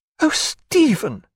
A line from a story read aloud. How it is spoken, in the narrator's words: cried